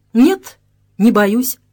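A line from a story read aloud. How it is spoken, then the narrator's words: Calm answer. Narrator (Russian): спокойно ответил хозяин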